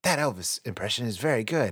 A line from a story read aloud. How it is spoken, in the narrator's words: Someone whispers